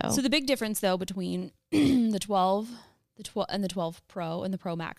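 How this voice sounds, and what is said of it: Strained, failing voice. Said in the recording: “I'm really struggling today ... I'm losing my voice.”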